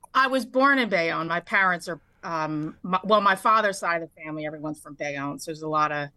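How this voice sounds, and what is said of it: New Jersey accent, good radio voice. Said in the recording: “you have a great radio voice too ... You have a great Jersey accent.”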